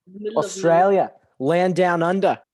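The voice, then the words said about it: Put-on Australian accent. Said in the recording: “The accent's so good. Oh my God. ... that's a really good accent.”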